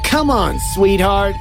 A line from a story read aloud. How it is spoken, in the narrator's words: he called, with his voice taunting